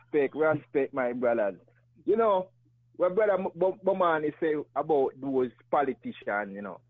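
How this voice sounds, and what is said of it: Noticeable accent. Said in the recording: “Love the accent.”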